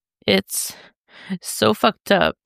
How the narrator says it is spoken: Damien sobs

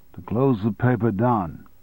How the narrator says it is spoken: said Russell calmly

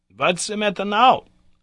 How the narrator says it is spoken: cried my uncle

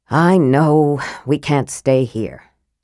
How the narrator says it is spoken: Tanis added with a sigh

